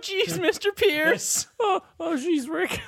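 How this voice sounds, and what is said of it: Morty impression. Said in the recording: “it did turn into Morty now ... Yeah, it's Morty now.”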